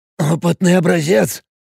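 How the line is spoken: Hoarse, strained voice. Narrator (Russian): сказал он хриплым, немного надорванным голосом

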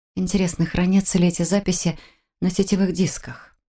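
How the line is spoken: Muttered. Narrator (Russian): пробормотала

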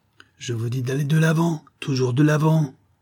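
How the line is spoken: Old man shouting, swearing. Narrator (French): s'écria le vieux en proférant un juron

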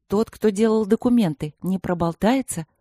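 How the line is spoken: Plain question. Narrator (Russian): спросила Ани

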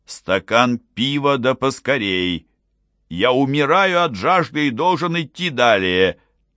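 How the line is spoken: Shouting. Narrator (Russian): крикнул

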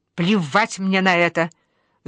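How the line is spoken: Mother's angry hiss. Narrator (Russian): злобно шипит мама

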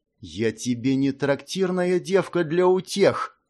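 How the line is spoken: Angry hiss. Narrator (Russian): Зло прошипело Мира

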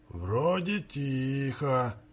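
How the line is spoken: Barely audible. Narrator (Russian): еле слышно констатировал он

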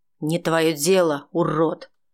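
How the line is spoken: Through clenched teeth. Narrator (Russian): Сквозь зубы процедил Валентин Константинович

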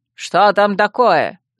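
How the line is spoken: Barked. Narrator (Russian): рявкнул Равьюр

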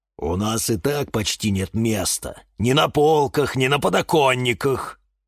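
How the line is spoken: Grumbling. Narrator (Russian): проворчал папоротник Демьян

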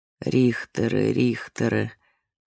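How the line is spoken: Muttering. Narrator (Russian): забормотала Ребекка Моисеевна

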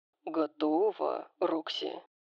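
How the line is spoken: Purring. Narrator (Russian): замурлыкал Дариус

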